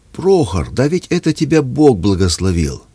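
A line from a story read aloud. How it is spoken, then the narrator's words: Joyful exclamation. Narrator (Russian): Вася радостно воскликнул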